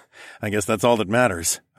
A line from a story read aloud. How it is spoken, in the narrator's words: I chuckled